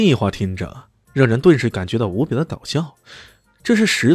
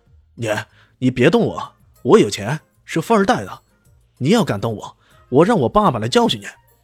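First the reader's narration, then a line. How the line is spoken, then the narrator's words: Loud yelling. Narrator (Chinese): 罗公子大声吼叫起来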